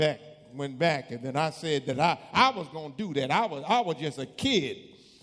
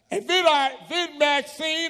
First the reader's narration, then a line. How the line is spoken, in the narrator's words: I yelled out his name